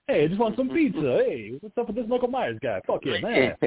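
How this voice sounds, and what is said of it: Bad put-on Italian accent. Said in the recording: “really bad Italian impersonations”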